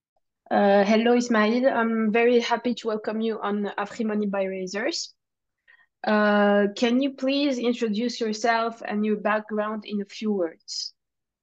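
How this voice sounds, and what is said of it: French-Moroccan accent in English. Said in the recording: “I am in love with your French-Moroccan accent in English.”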